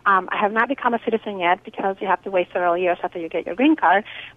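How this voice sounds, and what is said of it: Slight Guatemalan Spanish accent. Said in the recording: “I am from Guatemala... I speak English fluently with a little bit of an accent... it's beautiful”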